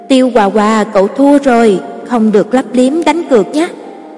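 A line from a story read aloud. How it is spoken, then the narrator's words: Laughing loudly. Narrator (Vietnamese): Phù dâu còn lại vỗ tay cười lớn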